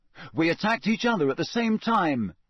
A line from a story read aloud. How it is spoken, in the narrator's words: Harry shouted